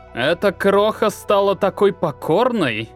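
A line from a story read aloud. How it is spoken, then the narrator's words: Threatening animal growl. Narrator (Russian): Угрожающе зарычал напрягшийся и поднявшийся на лапы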